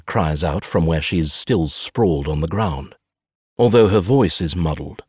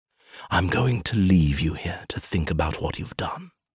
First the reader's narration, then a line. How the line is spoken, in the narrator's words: he whispers